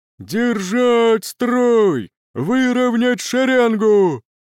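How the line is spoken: Muffled distant captain's voice. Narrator (Russian): Голос капитана Стаута слышен, но как-то глухо, будто уши заложены ватой

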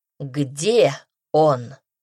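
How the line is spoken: Icy. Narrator (Russian): ледяным тоном повторил князь

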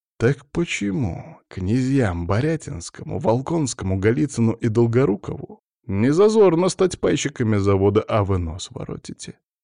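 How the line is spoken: Restrained hiss. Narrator (Russian): Стараюсь себя сдерживать, но мой голос в тишине прозвучал как шипение

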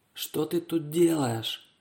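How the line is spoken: Whispered question. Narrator (Russian): шепотом спросила сидевшая девушка в маске кролика

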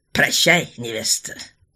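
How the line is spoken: Scoffing. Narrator (Russian): хмыкнул де Вилардон

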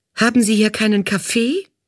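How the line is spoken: Indignant call. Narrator (German): rief die Assistentin ungehalten

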